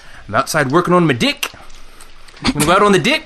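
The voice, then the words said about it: Poor put-on New Zealand accent. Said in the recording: “My Kiwi accent is very bad ... I can't do the Kiwi accent ... E equals I ... Everything sounds like a question ... I think you need to be a little more nasally, also.”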